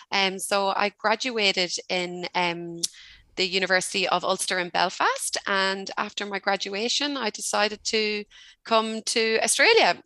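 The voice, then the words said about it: Irish accent. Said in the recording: “as you can tell from my accent, I'm not Australian, I'm Irish”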